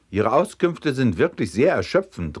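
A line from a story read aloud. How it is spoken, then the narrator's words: Angry shout. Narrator (German): rief wütend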